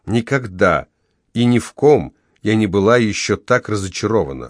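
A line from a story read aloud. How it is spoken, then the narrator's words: Even-toned, mother speaking. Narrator (Russian): ровным тоном проговорила мать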